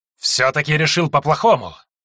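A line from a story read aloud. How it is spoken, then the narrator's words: Hissing reply, snake-man. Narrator (Russian): прошипел в ответ змей-люд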